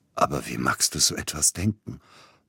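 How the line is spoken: Hoarse, strained. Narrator (German): brachte heiser hervor

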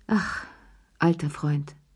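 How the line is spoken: Grateful sigh. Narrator (German): seufzte Cherie dankbar

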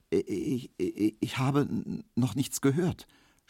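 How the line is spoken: Stammering. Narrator (German): stotterte Emil Kubinke

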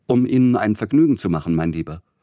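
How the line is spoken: Hasty. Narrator (German): sagte er hastig

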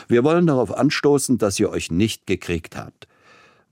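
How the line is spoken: Booming laughing voice. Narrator (German): wandte er sich mit einem besonders dröhnenden Lachen an seine Frau und an Peter Iljitsch

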